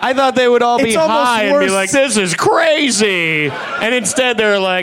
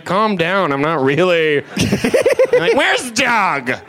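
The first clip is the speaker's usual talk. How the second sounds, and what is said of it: Stoner voice impression. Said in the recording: “that is the worst impression... That is the worst impression of a stoner.”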